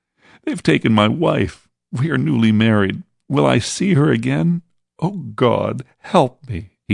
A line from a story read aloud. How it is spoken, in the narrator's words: he sobbed